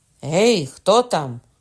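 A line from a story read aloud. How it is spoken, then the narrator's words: Shouted. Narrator (Ukrainian): крикнув Кокона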